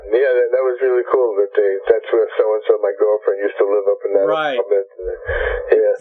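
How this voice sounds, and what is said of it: Brooklyn New York accent. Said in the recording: “you sound like one of my family members, because my father's family's all from Bensonhurst. ... you can't mistake my accent for a ... Texan”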